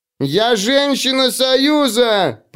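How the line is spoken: Roaring. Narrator (Russian): проревела она

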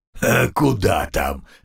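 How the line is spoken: Guffawing. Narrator (Russian): захохотал Умрун

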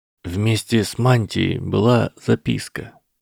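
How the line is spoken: Quiet. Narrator (Russian): тихо сказал Гарри

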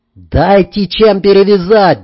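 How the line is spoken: Yelling. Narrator (Russian): заорал я

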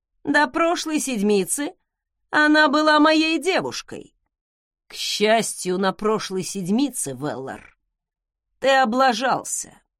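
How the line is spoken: Scathingly sarcastic snort. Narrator (Russian): С убийственным сарказмом хмыкнул Зак

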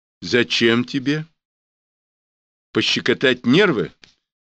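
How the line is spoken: Plain. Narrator (Russian): спросил Брюханов

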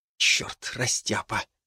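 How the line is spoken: Whispered curse. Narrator (Russian): выругался я шепотом

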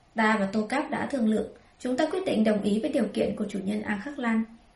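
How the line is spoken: Smiling. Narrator (Vietnamese): Chuẩn Sát mỉm cười

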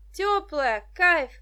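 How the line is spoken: Shouted reply. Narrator (Russian): крикнула в ответ Даша

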